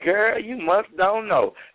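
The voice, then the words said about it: Imitates a country woman's voice. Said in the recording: “You know how country she is. ... That's my Fanny impression.”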